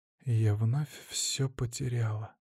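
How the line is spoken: Quiet whisper. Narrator (Russian): тихо прошептала Леомара

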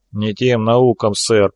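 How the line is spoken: Grumbling. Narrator (Russian): пробурчал помощник

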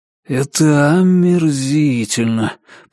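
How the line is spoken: Grumbling. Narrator (Russian): проворчал Ричард

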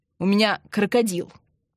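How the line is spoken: Snapping retort. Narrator (Russian): огрызнулся Андрей

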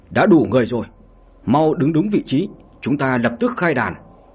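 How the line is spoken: Loud shout. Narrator (Vietnamese): Ông ta liền hét lớn

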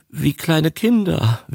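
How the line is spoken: Whimpered. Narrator (German): wimmerte der Singalese

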